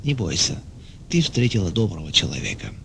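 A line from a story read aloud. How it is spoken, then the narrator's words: Gentle whisper. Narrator (Russian): А другой ласково шептал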